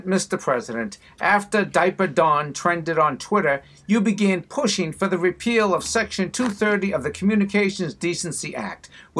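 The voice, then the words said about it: Boston accent. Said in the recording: “with the Boston accent”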